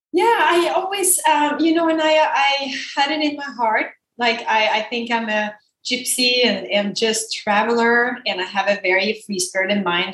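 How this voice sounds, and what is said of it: Speaks with a foreign accent. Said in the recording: “the accent. So that explains the accent”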